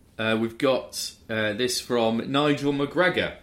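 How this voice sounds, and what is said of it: Usual voice. Nothing is said of it.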